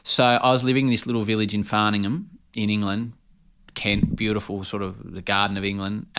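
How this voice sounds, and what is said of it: Strong Australian accent. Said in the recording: “I've got a pretty strong Australian accent.”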